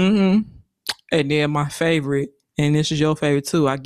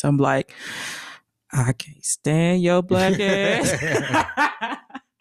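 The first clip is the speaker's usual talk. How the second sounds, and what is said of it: Put-on Southern accent. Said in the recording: “I give my southern accent voice.”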